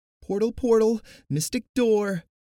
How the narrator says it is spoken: Kivi squeaked

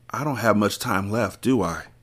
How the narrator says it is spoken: said in a weak voice

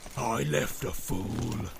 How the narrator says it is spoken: snarled Grishnak

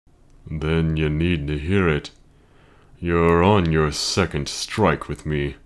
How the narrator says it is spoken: Luke growled

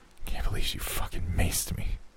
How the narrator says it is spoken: Jimmy said under his breath

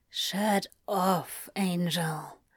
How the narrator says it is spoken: Crowley whispered, hot against the side of Aziraphale's throat

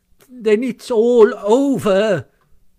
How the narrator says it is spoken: sobbed the toad, crying into the sofa cushions

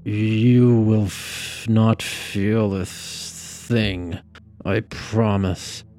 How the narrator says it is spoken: Knox slurred

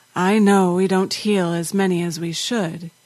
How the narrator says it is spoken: he said in a tired voice

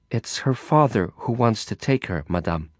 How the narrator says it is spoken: Carla replied, a little more gently

